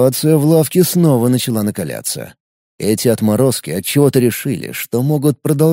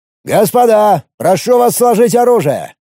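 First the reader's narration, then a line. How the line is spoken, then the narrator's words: Commanding tone. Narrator (Russian): властным тоном произнес первый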